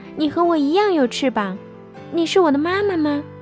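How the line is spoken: Sighing, apologetic. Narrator (Chinese): 企鹅太太叹了一口气

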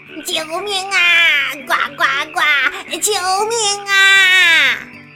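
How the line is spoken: Loud cries for help. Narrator (Chinese): 他们大声呼叫

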